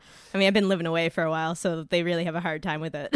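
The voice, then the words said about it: Cape Breton accent. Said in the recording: “I am from Cape Breton. ... I'm going to try to dial down my accent as much as possible. ... You're the one with the accent. ... Are you, like, Scottish and you lived in America for a long time? ... Are you some kind of Scandinavian?”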